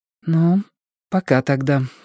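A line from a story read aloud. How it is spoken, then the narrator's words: Weak voice. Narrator (Russian): сказала она Стефани слабым голосом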